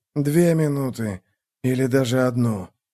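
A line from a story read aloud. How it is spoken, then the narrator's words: Mutter. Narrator (Russian): пробормотал Реннер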